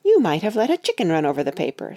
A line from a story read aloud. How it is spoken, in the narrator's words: said Katie